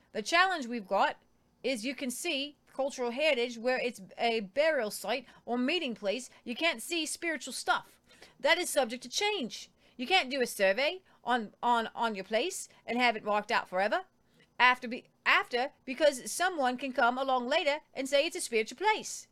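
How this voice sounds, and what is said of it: Put-on Australian accent. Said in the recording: “And that was my Australian accent. ... That was good.”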